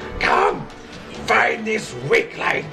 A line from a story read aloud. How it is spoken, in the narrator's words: screams in Draconic